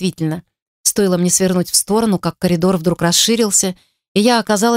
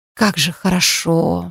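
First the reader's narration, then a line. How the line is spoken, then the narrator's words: Relieved exhale. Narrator (Russian): выдохнула я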